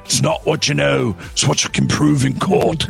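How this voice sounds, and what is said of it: Imitates another person's voice, badly. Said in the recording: “It's a really bad Gerard Butler impersonation. Really, really bad.”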